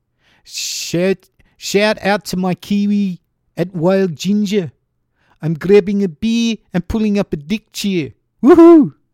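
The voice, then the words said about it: Attempted Kiwi accent, sounding South African. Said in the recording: “that sounds more South African than Kiwi, sorry. I usually do a pretty good Kiwi accent, but I think if I think about it too much, I go South African.”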